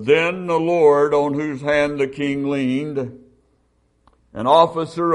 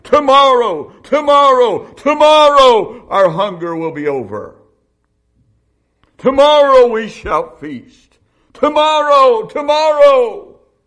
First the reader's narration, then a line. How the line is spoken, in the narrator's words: Hear them shouting